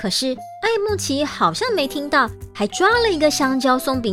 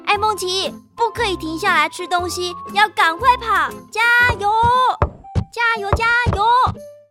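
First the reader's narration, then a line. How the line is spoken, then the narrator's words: Loud urging. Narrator (Chinese): 大声提醒爱孟奇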